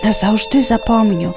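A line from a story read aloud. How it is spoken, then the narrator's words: Fading whisper. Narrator (Belarusian): Ужо зусім знікаючы, яна нібы прашаптала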